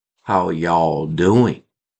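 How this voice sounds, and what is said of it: Southern drawl. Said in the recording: “Use my southern drawl, which I've had for many years”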